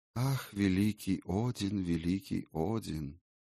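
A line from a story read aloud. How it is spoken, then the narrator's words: Sighing flowers. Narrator (Russian): вздохнули цветы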